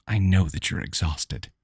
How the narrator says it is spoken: whispered reassuringly

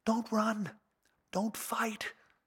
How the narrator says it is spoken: she whispers

